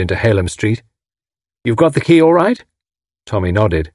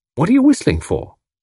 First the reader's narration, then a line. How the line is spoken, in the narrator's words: he asked sharply